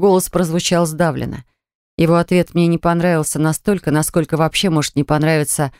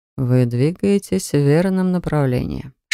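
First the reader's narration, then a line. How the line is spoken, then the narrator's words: Whisper. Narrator (Russian): шепнул принц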